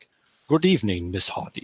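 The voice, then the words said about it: Poor Dracula-like accent, Connery-tinged. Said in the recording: “I can't do the accent. I suck at Craven's accents. ... That was Dracula. ... I was kind of going a little Sean Connery there.”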